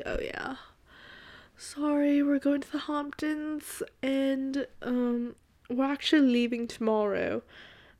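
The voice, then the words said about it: Put-on British accent. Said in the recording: “I don't know where that British accent, I don't know where she came from.”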